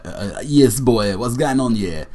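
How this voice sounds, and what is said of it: Imitation of a chav voice. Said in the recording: “a chav ... That's my best best impression ... can't do a kid who lives like maybe potentially 2 weeks down the road”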